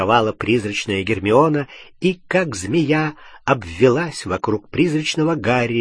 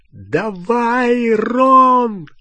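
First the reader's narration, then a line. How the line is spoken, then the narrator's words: Yelling. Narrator (Russian): завопил Гарри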